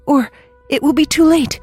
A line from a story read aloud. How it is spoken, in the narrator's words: cried the ghost